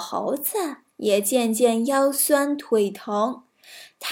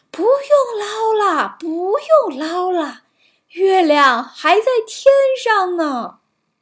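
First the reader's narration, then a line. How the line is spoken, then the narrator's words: Loud shout. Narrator (Chinese): 于是他大声喊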